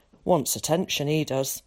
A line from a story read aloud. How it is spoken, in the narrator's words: muttered Tom